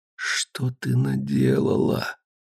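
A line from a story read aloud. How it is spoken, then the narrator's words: Low voice. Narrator (Russian): сказал вполголоса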